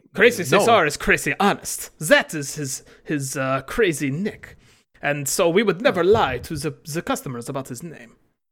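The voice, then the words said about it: Exaggerated put-on accent. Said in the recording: “I love your accent ... This is really the way you talk. It's not an affectation, then. ... a ridiculous accent”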